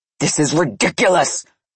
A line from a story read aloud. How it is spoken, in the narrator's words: Nikolai roared in fury